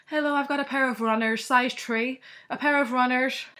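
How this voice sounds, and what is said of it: Put-on Irish accent. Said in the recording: “I'd then get the Irish customer being like ... You're good at accents.”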